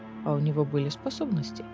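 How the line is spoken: Quiet. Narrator (Russian): тихо сказал Кассиан

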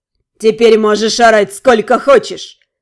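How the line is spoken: Nasty chuckle. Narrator (Russian): Фергун противно хохотнул

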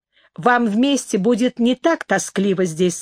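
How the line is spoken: Plain. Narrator (Russian): сказал он

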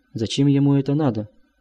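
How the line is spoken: Trembling voice. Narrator (Russian): дрогнувшим голосом спросил он

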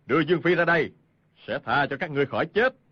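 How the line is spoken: Shout. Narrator (Vietnamese): Hoàng Nhan Hồng Liệt quát lên

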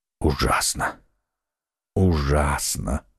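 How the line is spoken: Whisper. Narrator (Russian): шептал Атос

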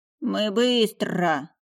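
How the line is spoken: Growled. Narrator (Russian): прорычал Лёвушка

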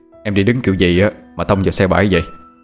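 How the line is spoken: Teasing question, young man. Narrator (Vietnamese): chàng trai hỏi với giọng điệu trêu đùa

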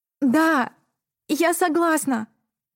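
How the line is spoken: Trembling but loud, confident. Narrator (Russian): произнесла дрожащим голосом, но громко и уверенно

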